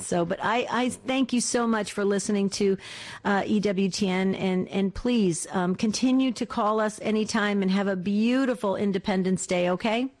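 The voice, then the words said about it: Slight East Coast US accent. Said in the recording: “You probably picked up a little of my back east accent”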